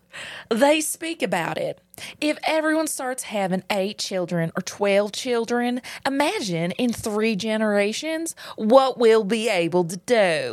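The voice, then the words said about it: Put-on Southern American accent. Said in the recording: “I'm just going to go for another Southern accent here.”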